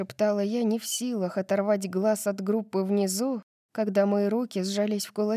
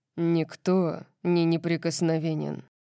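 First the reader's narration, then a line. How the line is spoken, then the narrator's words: Rumbling tone. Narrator (Russian): сказал Орион ракочущим тоном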